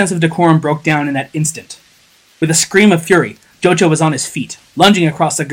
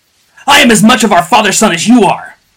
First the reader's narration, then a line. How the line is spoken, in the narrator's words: bellowed Jocha between blows